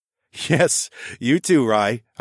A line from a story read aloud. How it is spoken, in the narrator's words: I chuckled